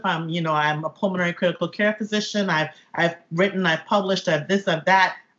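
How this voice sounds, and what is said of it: Caribbean island accent. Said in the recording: “you hear my island accent”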